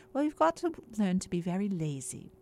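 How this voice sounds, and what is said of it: Weak imitation British accent. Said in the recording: “She said in British accent. My British accent is not very good.”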